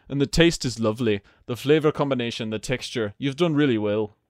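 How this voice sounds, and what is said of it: Fairly good put-on Scottish accent. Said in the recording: “I like your Scottish accent. It's pretty good.”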